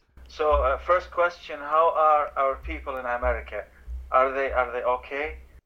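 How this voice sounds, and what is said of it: Slow, deliberate speech. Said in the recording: “I speak slowly”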